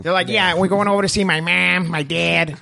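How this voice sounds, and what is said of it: Put-on gruff Chicago accent. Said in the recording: “that fucking accent, that gruff that, one? ... a deep Chicago one”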